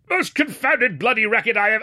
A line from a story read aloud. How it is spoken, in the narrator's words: he was greeted with a bellow of